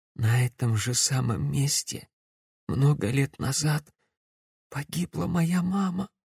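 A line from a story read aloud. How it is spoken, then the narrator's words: Choked whisper. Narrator (Russian): сдавленно прошептала девушка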